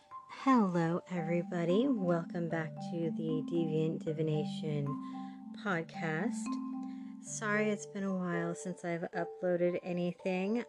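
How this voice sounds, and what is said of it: Hoarse, crinkly recovering voice. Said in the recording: “I lost my voice. ... Allergies or something. It's still a little crinkly”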